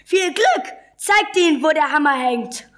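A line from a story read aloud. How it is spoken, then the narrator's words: Calling out. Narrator (German): rief er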